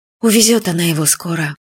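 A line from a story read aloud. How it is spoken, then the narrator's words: Sad, to herself. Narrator (Russian): печально сказала себе Юля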